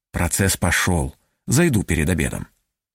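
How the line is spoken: Barely audible, smiling. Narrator (Russian): улыбнулся и чуть слышно сказал

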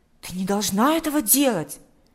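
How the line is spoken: Exclamation. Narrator (Russian): воскликнул Миша

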